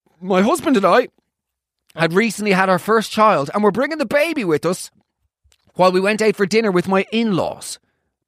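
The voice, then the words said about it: Put-on Irish accent. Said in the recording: “That accent? ... Yorkshire? ... Sort of. I'll just do Irish.”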